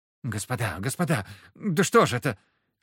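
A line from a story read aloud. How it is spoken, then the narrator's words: Helpless babbling. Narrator (Russian): лепетал Андрей Михайлович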